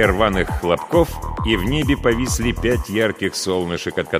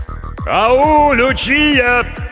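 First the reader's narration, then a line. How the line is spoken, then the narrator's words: Shouted through cupped hands. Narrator (Russian): крикнул кореец, сложив ладони рупором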